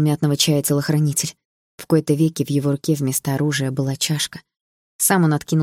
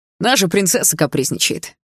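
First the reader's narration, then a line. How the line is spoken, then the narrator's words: Smirking snort. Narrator (Russian): хмыкнул Кэл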